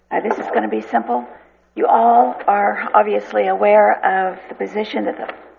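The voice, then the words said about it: Hoarse voice. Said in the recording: “I'm hoarse today.”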